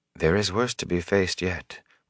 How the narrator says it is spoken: Moraine said softly

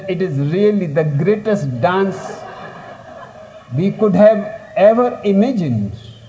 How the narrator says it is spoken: And people laughed and they said

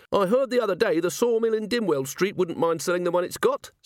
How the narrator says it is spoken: said the foreman

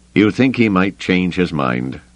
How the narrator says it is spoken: Lando asked

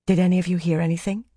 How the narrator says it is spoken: Fail whispered

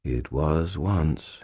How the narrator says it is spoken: he said, and his voice was gentle and infinitely sad

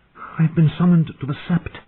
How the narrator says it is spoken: Sam said in an excited whisper

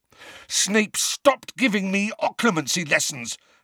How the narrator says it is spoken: Harry snarled

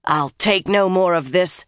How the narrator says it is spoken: she growled

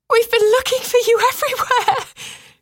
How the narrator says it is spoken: Cressa cried to Ambrice

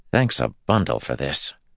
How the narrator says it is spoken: Matt muttered to Rand

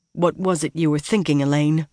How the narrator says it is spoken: Nynaeve asked

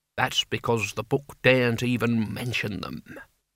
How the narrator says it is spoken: whispered Albert

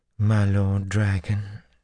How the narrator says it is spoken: she cooed

